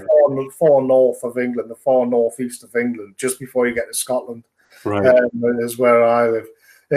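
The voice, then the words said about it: Northeast English accent. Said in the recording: “My accent gives away where I'm from. It's the northeast of England. ... I cannot really hide which part of the world I'm from with my accent.”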